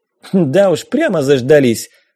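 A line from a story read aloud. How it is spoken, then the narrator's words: Snorting. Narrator (Russian): фыркнула капитан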